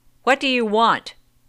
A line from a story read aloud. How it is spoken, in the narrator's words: shouted the mother